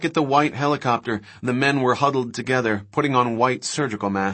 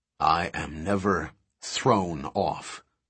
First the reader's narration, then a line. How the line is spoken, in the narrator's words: Levine said coldly